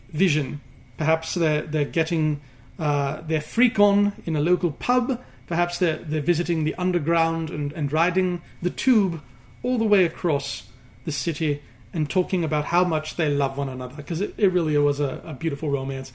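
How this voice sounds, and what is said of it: Put-on English accent. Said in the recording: “accent”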